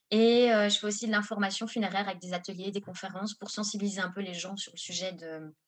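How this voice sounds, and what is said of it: Belgian French accent. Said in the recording (French): “a un joli petit accent, donc on part en Belgique avec toi.”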